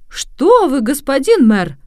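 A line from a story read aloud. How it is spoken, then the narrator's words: Exclaiming. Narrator (Russian): воскликнул Джованнино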